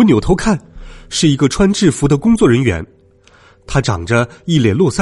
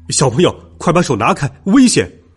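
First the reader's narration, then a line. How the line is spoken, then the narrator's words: Shouting nearby. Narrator (Chinese): 一个声音在我旁边喊道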